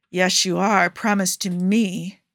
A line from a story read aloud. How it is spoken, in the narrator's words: Joe growls